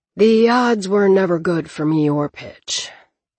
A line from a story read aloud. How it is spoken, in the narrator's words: he added with a sigh